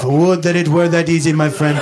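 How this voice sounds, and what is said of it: Poor, exaggerated put-on accent. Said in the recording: “this poor, borderline offensive accent.”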